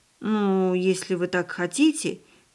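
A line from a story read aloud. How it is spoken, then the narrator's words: Uncertain. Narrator (Russian): неуверенно произнесла хозяйка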